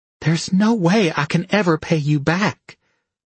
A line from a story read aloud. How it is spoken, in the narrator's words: she said desperately